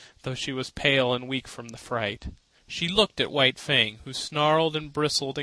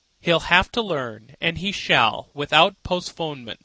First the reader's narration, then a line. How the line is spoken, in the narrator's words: Scott said